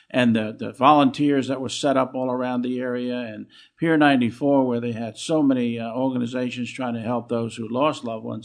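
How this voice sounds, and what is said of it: New York accent. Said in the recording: “We can tell by your accent that you're a native New Yorker.”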